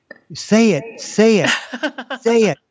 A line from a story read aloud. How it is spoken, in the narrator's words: the crowd was yelling